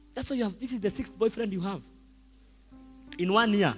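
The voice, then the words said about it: Shouting. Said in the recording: “I'm shouting”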